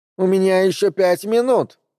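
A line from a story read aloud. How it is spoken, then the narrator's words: Indignant shout. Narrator (Russian): возмущенно крикнула она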